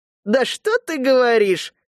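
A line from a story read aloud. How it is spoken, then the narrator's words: Bursting into laughter. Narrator (Russian): расхохоталась Ирма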